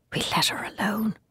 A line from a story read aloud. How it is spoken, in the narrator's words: he whispered after a moment's pause